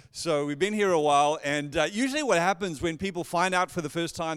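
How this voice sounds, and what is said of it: South African accent. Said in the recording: “as you've probably already kind of figured out from my accent, I'm not originally from around here, so born and raised in Johannesburg, South Africa”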